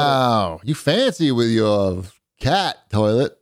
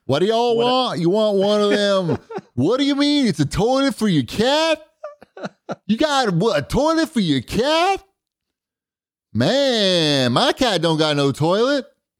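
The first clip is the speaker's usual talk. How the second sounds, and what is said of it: Imitated Ohio plumber's accent. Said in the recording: “I don't know what accent this is, but is that what your plumber sounds like? ... That's the typical Ohio plumber's accent.”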